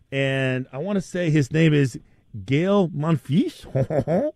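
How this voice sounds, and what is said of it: Put-on French accent. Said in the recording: “That's my best French accent there,”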